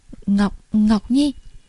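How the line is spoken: Trembling, tender call. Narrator (Vietnamese): Thánh Đế trong giọng nói cực kỳ run rẩy, dịu dàng gọi lên một cái tên

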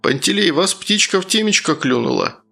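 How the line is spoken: Mocking question. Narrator (Russian): насмешливо спросил тот

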